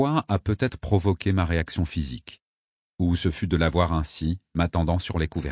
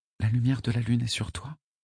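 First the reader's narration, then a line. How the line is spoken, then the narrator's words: Murmur. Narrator (French): murmura Aînée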